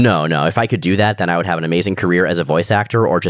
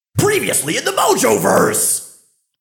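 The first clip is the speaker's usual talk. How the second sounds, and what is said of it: Yelling cartoonish character voice. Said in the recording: “doing that voice ... a professional yeller”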